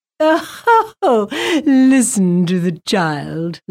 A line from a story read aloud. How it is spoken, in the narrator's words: laughed Maxine